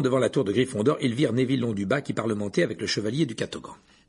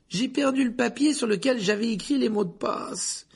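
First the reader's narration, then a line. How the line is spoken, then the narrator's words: Moaning. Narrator (French): gémit Neville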